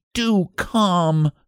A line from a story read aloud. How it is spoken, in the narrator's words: she begged